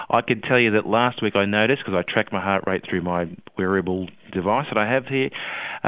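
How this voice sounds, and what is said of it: Voice slightly unwell from a cold. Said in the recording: “you may detect that my voice is not 100% ... I was struck down by the cold”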